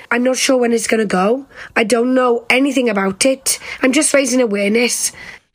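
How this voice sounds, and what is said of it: Welsh accent. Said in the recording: “I woke up with this accent. Literally, I opened my eyes, opened my mouth, and I'm Welsh. ... It's called foreign accent syndrome”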